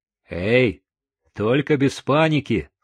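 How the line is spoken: Stern. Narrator (Russian): строго сказал Хосе

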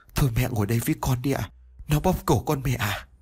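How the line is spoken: Trembling voice. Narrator (Vietnamese): Liên nói với giọng run rẩy

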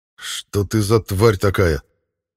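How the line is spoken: Angry. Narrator (Russian): зло произнес я

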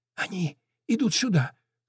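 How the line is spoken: Dwarf's whisper. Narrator (Russian): шепнул в ответ карлик

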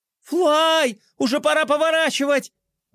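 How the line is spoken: Shrieking. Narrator (Russian): завизжала Глория

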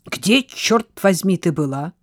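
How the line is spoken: Angry question. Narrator (Russian): сердито спросил Фил

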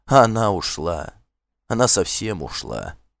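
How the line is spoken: Human-like sigh. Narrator (Russian): Жадный вздохнул, как человек

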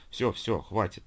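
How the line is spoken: Gentle big-sister tone. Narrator (Russian): ласково ответила Ангелина тоном старшей сестренки

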